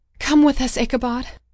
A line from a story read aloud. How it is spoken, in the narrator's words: I cried